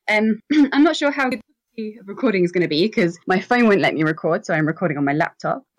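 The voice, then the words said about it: English accent. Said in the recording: “from England, in case you hadn't been able to tell from my accent”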